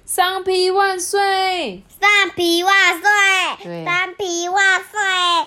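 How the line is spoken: Loud group cheering. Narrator (Chinese): 同学们就大喊

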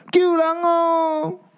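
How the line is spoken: Agonized scream. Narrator (Chinese): 罗伊尔惨叫

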